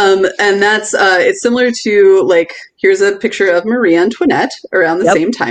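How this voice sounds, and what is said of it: Usual voice. Nothing is said of it.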